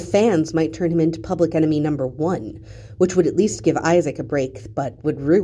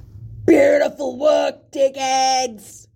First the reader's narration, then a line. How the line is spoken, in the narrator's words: Someone bellows from the stands right above them